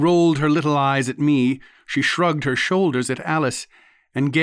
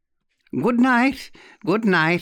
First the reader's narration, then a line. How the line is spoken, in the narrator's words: she cried